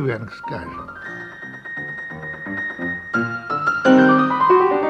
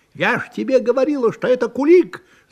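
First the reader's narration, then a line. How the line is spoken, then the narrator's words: Old woman shouting. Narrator (Russian): закричала старуха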